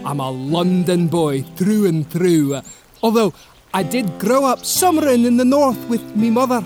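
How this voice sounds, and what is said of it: Put-on Scottish accent. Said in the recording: “don't let the Scottish accent fool ya”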